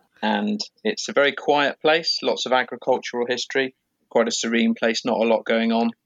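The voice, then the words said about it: English West Country accent. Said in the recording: “I come from Wiltshire in England, which you might be able to tell by my accent.”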